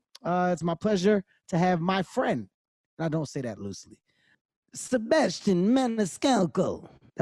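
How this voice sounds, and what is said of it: Poor put-on Italian accent. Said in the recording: “That was my Italian accent ... it sucks”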